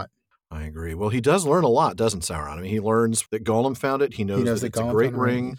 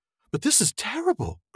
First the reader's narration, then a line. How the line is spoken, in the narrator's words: cried Frodo